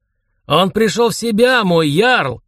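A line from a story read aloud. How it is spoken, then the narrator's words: Shout. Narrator (Russian): крикнул Лерак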